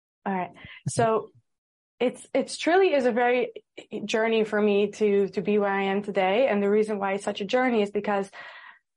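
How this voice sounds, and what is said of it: American-influenced accent. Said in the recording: “I lived in America for a few years, which is why I have the accent.”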